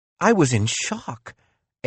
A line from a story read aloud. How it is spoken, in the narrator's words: Ava replied